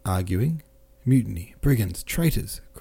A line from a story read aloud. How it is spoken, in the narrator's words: cried Rostov, unmeaningly, in a voice not his own